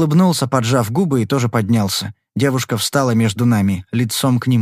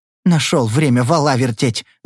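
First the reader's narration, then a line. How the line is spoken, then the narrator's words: Hissing. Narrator (Russian): зашипела она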